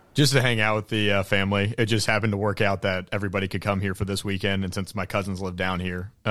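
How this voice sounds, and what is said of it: Smooth broadcaster-style radio voice. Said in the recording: “you have a radio voice”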